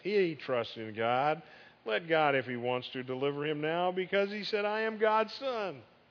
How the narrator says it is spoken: one of the robbers, the thieves, also mocks

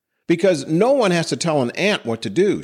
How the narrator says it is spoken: shouted back Jerry

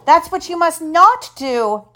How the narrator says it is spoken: We yelled

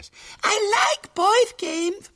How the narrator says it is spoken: pleaded Violet Elizabeth, and her blue eyes filled with tears

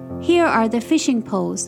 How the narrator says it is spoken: Huey said

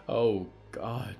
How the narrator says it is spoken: gasped

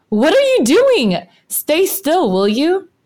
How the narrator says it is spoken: Xuosuo screeches

